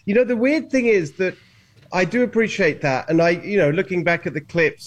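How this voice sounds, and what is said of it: British accent. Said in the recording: “not bad for a guy with a British accent.”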